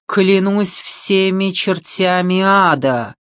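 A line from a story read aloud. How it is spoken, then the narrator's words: Roaring. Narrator (Russian): взревел Франсуа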